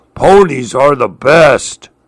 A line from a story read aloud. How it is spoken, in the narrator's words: The Allosaurus sighed happily